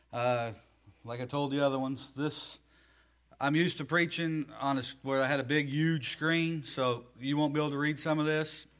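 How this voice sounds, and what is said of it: Southern American accent. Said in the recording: “I am from the South, as you can tell, the language, the accent.”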